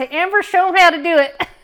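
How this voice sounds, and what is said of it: Imitated Texas accent. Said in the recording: “it's a pretty good Texas accent.”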